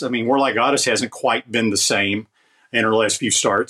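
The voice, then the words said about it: European accent. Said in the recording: “you had that nice European accent”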